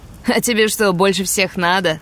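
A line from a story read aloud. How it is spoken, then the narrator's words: Barked, rough. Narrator (Russian): Рявкнул один из обидчиков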